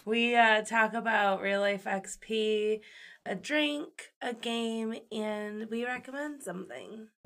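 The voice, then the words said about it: Rough, hoarse voice. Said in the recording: “My voice is a little rough today.”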